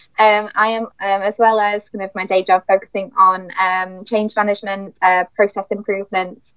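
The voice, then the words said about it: British accent. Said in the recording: “the token British accent”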